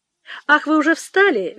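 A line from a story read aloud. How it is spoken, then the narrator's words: Cheerful. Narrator (Russian): весело сказала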